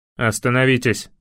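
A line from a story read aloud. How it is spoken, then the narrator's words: Thundering command. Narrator (Russian): прогремел голос старшего из отряда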